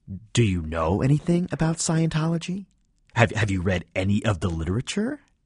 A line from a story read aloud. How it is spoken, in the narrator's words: say in a falsely cheerful, irritated voice